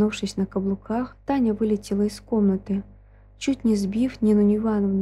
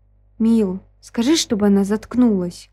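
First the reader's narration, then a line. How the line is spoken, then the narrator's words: Moan. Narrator (Russian): Простонала Вика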